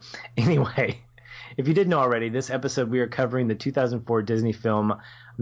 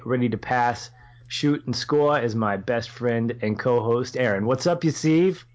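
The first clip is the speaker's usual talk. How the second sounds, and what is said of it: Bad put-on Boston accent. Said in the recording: “that was probably my worst, best something version of a Boston accent.”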